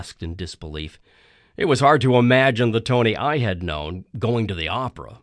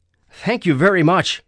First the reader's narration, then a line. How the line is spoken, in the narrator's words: I yelled